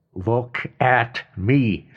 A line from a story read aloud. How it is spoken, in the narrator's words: snapped Jeff